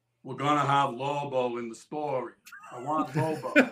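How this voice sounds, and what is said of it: Imitates another person's voice. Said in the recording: “let me do my Butch impression.”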